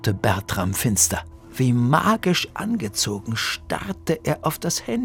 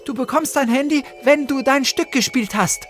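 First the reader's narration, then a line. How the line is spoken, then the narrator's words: Calling out. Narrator (German): rief Luna und suchte hektisch weiter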